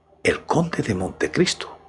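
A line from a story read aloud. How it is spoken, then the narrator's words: Murmur. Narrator (Spanish): murmuró Valentín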